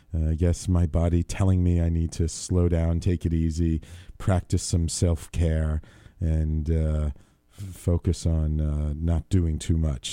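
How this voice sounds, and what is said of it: Low, low-energy voice. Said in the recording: “my voice is a little low, my energy is a little low compared to usual ... still trying to get over this chest cold”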